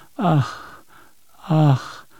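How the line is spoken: Repeated sighing. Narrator (German): seufzte bloß immer wieder

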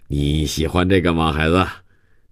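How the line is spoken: Affectionate. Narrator (Chinese): 他说着，亲热地

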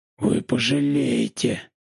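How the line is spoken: Muffled hiss from below. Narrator (Russian): шипел Войцеховский из-под асфальта

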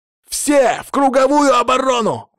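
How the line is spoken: Exclaimed. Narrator (Russian): воскликнул он

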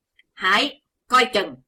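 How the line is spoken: Sudden thunderous shout. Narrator (Vietnamese): Đột nhiên có tiếng quát rên động cả tràng

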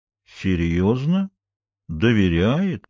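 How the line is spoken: Drawl. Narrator (Russian): протянул Флауэрс

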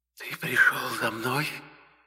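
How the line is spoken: Quiet whisper. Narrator (Russian): этот тихий шепот, прозвучавший на грани моего слуха

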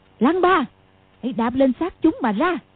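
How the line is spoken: Sharp shout. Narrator (Vietnamese): quát lên

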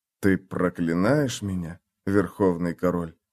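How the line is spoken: Whispered. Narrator (Russian): прошептал он

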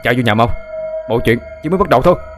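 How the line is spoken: Hurried loud shout. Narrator (Vietnamese): vội hét lớn

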